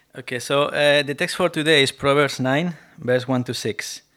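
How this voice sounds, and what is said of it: Strong Spanish accent. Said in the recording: “my accent is still very Spanish accent”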